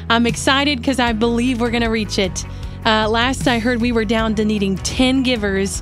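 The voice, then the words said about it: Breathless, out-of-breath speech. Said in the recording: “I'm out of breath because I just ran in here ... Got to catch my breath”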